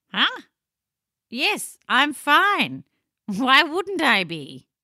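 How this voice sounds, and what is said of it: Wonky, silly comic voice. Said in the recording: “your voice is so wonky ... You do have a silly voice.”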